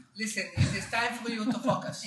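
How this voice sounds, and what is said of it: Put-on accent. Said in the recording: “I don't understand that without the accent.”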